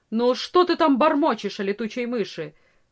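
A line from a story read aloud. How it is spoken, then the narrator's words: Stern peasant woman asking. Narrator (Russian): строго спросила крестьянка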